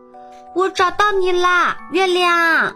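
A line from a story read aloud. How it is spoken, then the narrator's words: Loud shout. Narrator (Chinese): 小熊大声叫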